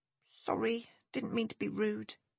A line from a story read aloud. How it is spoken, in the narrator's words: muttering